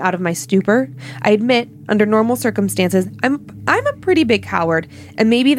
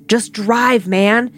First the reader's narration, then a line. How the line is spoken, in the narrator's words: my buddy screamed at me